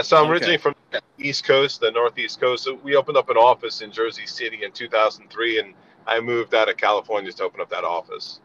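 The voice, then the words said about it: Slight East Coast American accent. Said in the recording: “you did retain your East Coast accent slightly”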